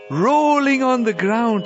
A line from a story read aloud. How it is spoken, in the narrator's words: he called out